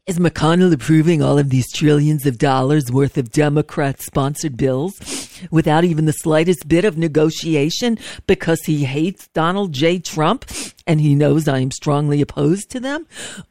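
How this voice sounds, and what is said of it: Imitates another person's voice, with sniff. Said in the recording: “I haven't done a good Trump impersonation lately, so I'm a little rusty on it... got to start with a sniff”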